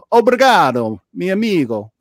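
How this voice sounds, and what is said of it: Bad put-on Portuguese-Spanish accent. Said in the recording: “my horrible Portuguese mixed in with the Argentinian Spanish accent, which sounds Italian”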